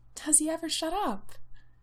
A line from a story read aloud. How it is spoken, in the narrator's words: Ramsay asks Tej, moaning